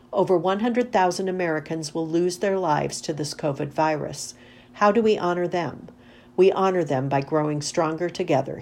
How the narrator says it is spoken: he said

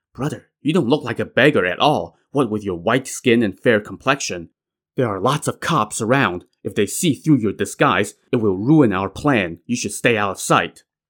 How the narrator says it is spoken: Shi Qian whispered

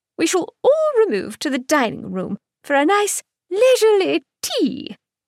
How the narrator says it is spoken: York chirped

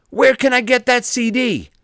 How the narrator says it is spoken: After about 20 minutes of being mobbed another person shouted

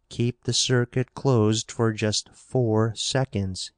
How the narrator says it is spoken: he added slowly

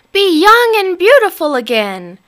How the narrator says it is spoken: cried Helga

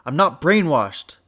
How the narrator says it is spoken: Lily shouted, voice weak

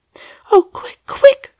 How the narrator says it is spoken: cried Sally, panting with haste

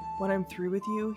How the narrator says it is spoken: whispered against the flesh of her stomach

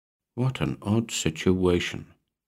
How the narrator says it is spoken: Maurice mumbled, pondering the nature of the guest in the royal suite

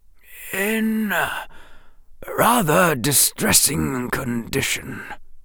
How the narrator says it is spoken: Dumbledore said quietly

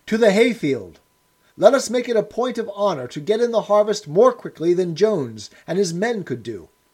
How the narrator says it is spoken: cried Snowball

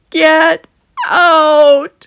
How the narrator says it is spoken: Pharaoh shouted

